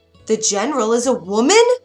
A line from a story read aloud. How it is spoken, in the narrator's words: yelled the soldiers